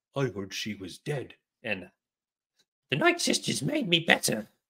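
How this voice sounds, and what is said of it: Imitates a character's voice. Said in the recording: “my Ventress impression”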